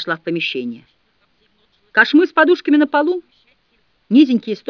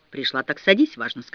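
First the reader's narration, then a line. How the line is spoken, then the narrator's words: Plain. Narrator (Russian): сказал Мамикон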